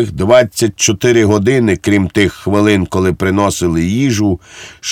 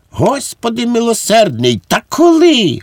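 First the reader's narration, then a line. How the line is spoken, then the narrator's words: Exclamation. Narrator (Ukrainian): вигукнув Швейк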